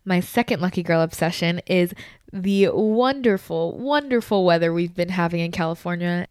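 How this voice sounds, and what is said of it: Sarcastic joking tone. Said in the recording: “If you can't tell by my voice that I am joking”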